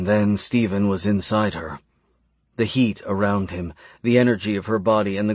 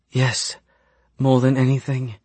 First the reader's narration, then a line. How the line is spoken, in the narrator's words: the woman breathed